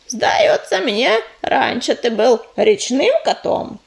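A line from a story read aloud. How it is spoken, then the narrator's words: Displeased grumble. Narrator (Russian): Недовольно буркнула кисточка, давая понять, что не слишком-то и рада такому визиту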